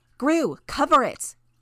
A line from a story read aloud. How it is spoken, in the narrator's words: Tattletail shouted